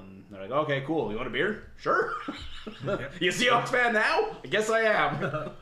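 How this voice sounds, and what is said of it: Exaggerated Canadian accent. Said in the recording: “You're a Canadian, right? ... I am over-exaggerating the accent ... again, exaggerating the accent”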